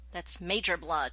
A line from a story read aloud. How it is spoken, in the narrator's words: John snapped back automatically